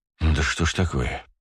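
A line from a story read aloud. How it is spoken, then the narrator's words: Sighed. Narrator (Russian): вздохнул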